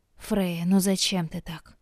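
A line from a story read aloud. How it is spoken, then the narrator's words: Sighing mother. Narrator (Russian): вздохнула мама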